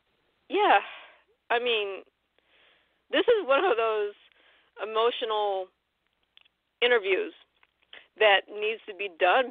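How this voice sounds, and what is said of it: Choked up, emotional voice. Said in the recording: “I'm still a little bit choked up.”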